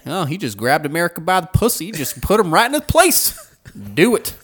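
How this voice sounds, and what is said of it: Redneck-style impression voice. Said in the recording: “I hate this man when he do that voice. ... His redneck ... grab voice.”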